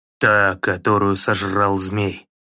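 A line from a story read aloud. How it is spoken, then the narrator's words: Plain. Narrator (Russian): сказал Кратос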